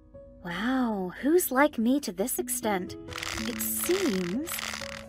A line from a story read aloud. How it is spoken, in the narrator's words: whispered